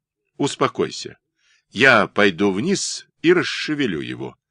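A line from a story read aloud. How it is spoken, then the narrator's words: Calm voice. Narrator (Russian): спокойным голосом произнес Шеллинг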